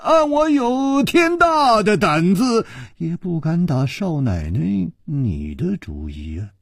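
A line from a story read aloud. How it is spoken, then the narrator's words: Sighing. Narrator (Chinese): 楚留香叹了一口气说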